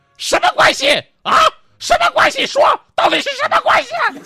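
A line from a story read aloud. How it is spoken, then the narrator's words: Woman roaring. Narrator (Chinese): 从楼上传来一个女人的咆哮声音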